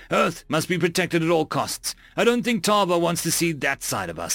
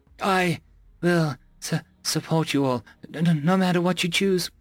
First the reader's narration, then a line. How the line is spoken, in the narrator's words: I stammered